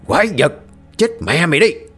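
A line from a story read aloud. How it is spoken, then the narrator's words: Old man roaring. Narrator (Vietnamese): Lão Nhiên gầm lên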